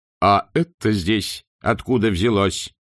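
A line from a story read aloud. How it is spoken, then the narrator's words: Loud question. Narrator (Russian): громко вопросил он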